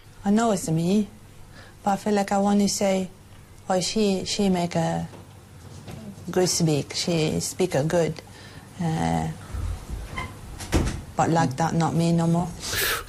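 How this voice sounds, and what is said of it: Chinese-sounding accent. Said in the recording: “She's speaking in a Chinese accent”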